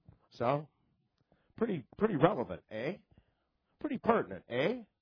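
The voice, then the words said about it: Canadian accent with drawn-out eh. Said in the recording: “I'm from Canada. They say, eh. That's my Canadian accent.”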